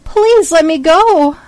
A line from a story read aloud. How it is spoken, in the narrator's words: screamed